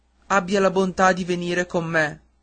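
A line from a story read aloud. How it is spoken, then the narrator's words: Plain. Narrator (Italian): disse il maestro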